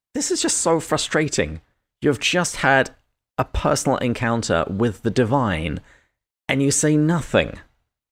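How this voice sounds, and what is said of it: British accent. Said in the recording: “you sounded just like my old British roommate in New York ... my accent”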